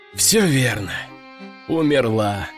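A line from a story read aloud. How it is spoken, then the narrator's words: Sighing. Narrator (Russian): вздохнул я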